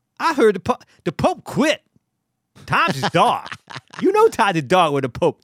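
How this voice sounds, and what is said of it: Tracy Morgan impression. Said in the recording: “Tracy Morgan, I do a little bit of Tracy.”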